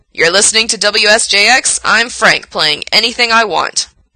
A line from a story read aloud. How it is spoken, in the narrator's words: says loudly in Gerard's ear